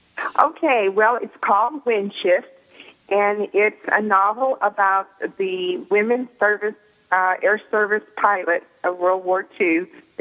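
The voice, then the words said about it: Southern American accent. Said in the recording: “Southern Belles ... I just love the accent.”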